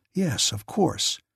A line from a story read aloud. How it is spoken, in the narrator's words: Chick muttered